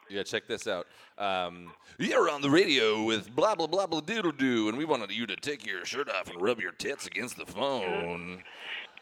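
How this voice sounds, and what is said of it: Radio DJ voice. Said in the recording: “You sound like a radio, you know, like the radio guys ... you have a radio voice.”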